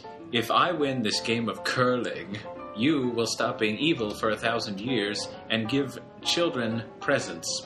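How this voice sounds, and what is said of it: Unidentified put-on accent. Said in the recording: “What is this accent you're executing? ... I don't know what the accent is. It just felt appropriate.”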